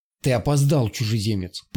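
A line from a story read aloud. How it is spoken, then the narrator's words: Whistling hiss, bilious laugh. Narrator (Russian): Прошипел со свистом стройственный дух, желчно захохотал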